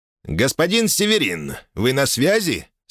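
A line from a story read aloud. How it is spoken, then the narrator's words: Plain. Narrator (Russian): спросил меня Травьен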